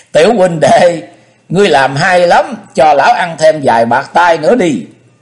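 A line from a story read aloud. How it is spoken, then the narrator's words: Gleeful loud laughter. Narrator (Vietnamese): Công Tôn Ngọc khoái chí vỗ tay cười lớn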